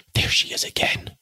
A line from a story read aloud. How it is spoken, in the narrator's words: Sue whispered in appalled accents